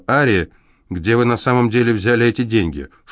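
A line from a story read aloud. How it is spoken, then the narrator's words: Sharper questioning tone. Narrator (Russian): Более резким тоном, чем раньше, она спросила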